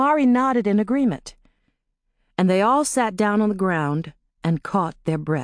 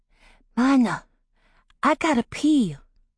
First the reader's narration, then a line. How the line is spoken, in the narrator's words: Tidbit whispered